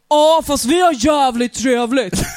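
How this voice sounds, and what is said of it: Weak put-on Gothenburg dialect. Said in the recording (Swedish): “På göteborgska. ... Jag kan inte göteborgs.”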